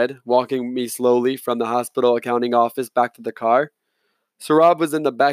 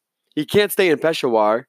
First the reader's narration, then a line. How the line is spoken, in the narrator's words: said, panting